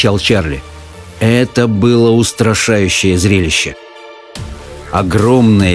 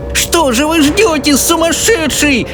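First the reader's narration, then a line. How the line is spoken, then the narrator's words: Shrieking old woman. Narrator (Russian): завизжала бабушка Джозефина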